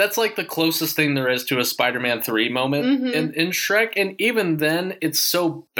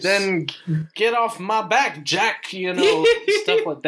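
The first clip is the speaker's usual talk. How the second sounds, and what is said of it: Imitates Shrek's voice. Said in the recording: “That's my Shrek impression.”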